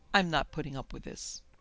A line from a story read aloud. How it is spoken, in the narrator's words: said firmly